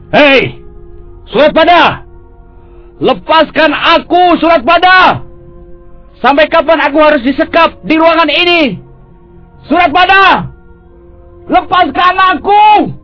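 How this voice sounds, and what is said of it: Shouting. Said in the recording (Indonesian): “Mengapa kau berteriak-teriak?”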